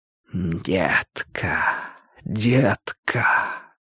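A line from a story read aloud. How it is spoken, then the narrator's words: Tender soft whisper. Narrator (Russian): шептал Линч голосом ласковым, как касание туманом щеки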